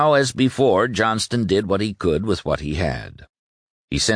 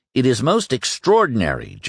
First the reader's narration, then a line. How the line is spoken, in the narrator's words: Johnston exclaimed